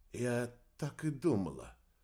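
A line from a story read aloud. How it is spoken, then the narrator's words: Hoarse. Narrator (Russian): хрипло произнесла Марина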